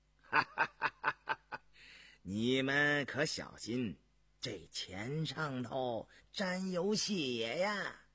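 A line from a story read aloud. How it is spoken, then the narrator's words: Laughing. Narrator (Chinese): 毕振远笑道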